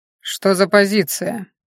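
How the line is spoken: Cold question. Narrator (Russian): холодно спросил Хорен

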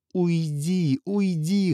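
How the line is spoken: Whimpering. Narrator (Russian): хныкал Азат

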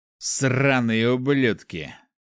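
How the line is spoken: Displeased growl, armored man. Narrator (Russian): недовольно рыкнул мужчина в доспехе

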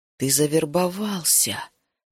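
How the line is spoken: Quiet. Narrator (Russian): тихо сказал Саммерин

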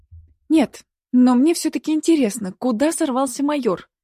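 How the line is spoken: Exclaiming. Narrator (Russian): воскликнула Вика

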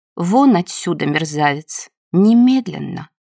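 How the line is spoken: Quiet. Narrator (Russian): Худенькая Евдокия Федоровна тихо сказала

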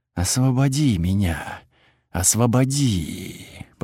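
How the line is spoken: Animal-like whisper. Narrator (Russian): повторила она все тем же звериным шепотом

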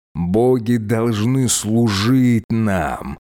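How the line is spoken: Hiss. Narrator (Russian): прошипел Диос

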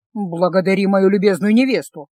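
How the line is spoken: Grumbling. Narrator (Russian): буркнул

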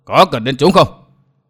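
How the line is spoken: Loud laughter. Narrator (Vietnamese): Vô Ảnh Kiếm cười lớn nói

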